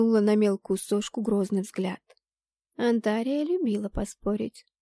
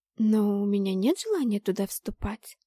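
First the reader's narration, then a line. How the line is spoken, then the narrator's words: Uncertain objection. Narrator (Russian): возразила неуверенно блондинка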